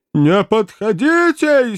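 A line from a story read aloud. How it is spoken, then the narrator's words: Hysterical wail. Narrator (Russian): истерически взвыл милый Веллер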